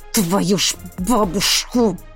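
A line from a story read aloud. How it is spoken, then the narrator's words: Hissing. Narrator (Russian): прошипел я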